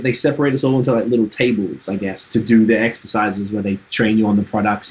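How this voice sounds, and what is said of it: Trinidadian accent. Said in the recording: “We were the only two people with accents. ... my accent was weird ... Trinidad ... this dude talks funny”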